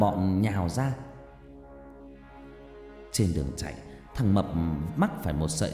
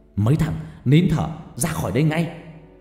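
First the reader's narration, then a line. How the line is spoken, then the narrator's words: Shouted. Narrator (Vietnamese): Bố của Mỹ hét lên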